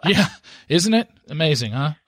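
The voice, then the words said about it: Sarcastic delivery. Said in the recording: “you didn't get my sarcasm to your sarcasm.”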